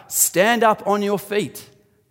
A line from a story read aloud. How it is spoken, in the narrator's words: called out